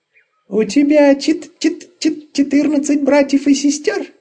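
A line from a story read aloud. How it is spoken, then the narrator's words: Squeaky small creature. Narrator (Russian): пропищал комочек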